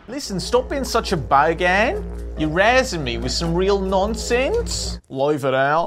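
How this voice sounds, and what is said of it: Bad put-on Australian accent. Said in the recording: “You're doing a terrible Australian accent and you're using the slang all wrong.”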